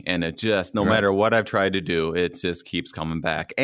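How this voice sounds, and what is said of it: Minnesota accent. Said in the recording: “if your family needs to hear a Minnesota accent, they just have to listen to me”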